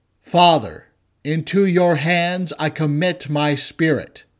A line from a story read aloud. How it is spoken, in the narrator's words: Jesus cried out with a loud voice and said